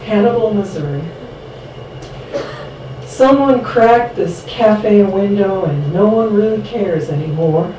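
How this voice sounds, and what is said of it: Exaggerated twang accent. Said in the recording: “I'll try to amp up my twang a little for this one ... The accent's important in that one.”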